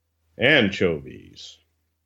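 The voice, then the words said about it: Boxing ring announcer voice. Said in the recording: “Let me dig down deep into my announcer voice, and I am going to kiss the microphone.”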